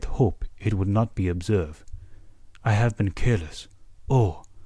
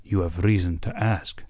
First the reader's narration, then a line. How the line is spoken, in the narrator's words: said he, and sighed